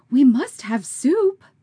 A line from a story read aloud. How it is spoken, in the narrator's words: cried distracted